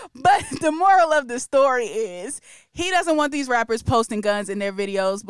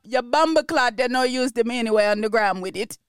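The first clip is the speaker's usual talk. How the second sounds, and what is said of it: Put-on Jamaican accent, shaky. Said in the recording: “let me do my Jamaican accent for this part. I'm going to do my Jamaican accent ... That's good. I like that. ... that second part was a little questionable. Struggled through that second part.”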